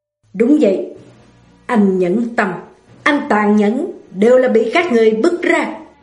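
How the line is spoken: Cold, angry, through gritted teeth. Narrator (Vietnamese): Vân Phi tức giận, lạnh lùng, nghiến răng nghiến lợi nói

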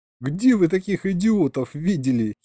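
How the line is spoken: Giggle. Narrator (Russian): хихикнул я

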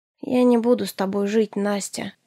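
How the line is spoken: Weary reply. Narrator (Russian): устало откликнулся он

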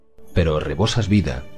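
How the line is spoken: Woman hissing. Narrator (Spanish): siseó la mujer

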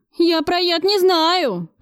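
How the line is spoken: Howling wail. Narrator (Russian): взвыл Федоркин

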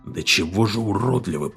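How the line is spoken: Mutter. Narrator (Russian): пробормотал Кордовер

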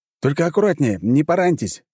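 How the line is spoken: Parting shout. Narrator (Russian): крикнул я напоследок

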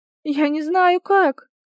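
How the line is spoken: Moaning, near tears. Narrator (Russian): Чуть не плача, простонала она

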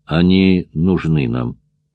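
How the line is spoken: Calm objection. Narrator (Russian): спокойно возразил Бельвуар

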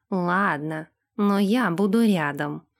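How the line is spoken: Grumbling. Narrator (Russian): проворчал он

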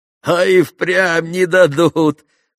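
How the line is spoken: Laughing. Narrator (Russian): засмеялся и Митрий

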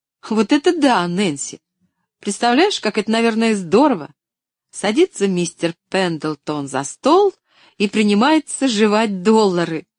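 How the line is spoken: Laughing louder than before. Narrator (Russian): Поллианна засмеялась еще громче прежнего

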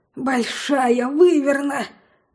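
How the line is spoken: Terrified trembling gasp. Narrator (Russian): В ужасе выдохнул Лин, задрожав всем телом

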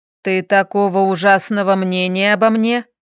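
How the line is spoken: Menacing question. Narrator (Russian): Как-то грозно уточнил он

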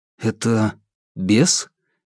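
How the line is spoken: Uncertain question. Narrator (Russian): неуверенно спросил Алексей

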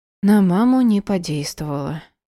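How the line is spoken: Sighed. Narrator (Russian): вздохнула

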